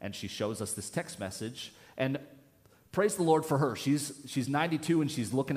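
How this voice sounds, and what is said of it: Usual voice. Nothing is said of it.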